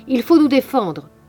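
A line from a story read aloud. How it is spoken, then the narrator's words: Shouting. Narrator (French): criait-il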